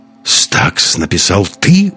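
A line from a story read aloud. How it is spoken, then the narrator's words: Admiring exclamation. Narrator (Russian): воскликнул Андерс с восхищением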